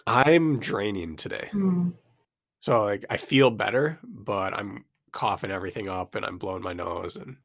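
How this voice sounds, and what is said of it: Slightly raspy, congested voice. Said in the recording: “You sound a little raspy.”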